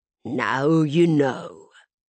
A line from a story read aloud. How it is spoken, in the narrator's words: he said with a soft rumble